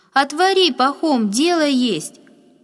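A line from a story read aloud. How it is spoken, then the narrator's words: Loud woman's call. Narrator (Russian): громко отозвалась женщина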